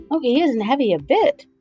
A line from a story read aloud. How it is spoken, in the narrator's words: said Dorothy eagerly